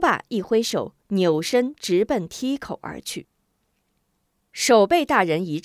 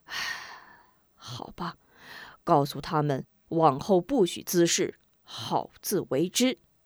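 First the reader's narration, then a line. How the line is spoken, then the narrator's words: Sighing. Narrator (Chinese): 叹口气道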